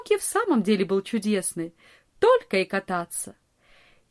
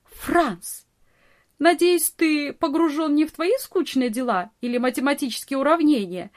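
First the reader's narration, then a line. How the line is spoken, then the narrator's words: Laughing scolding. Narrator (Russian): смеясь, журила его Нони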